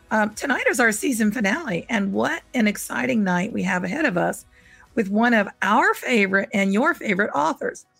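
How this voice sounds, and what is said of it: Scratchy voice. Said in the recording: “my voice is scratchy”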